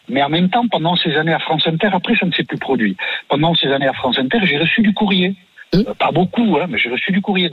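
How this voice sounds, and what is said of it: Regional French accent. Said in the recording (French): “mais avec votre accent, vous parlez de politique”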